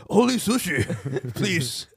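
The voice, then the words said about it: Put-on Japanese accent. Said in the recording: “I don't know why the guy has a Japanese accent.”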